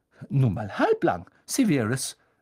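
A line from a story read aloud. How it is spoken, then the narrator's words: Sharp. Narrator (German): sagte Professor McGonagall scharf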